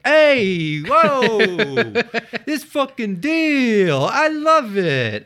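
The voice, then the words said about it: Put-on New York accent. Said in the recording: “picture a Long Island new accent, like New York accent ... That was just New York.”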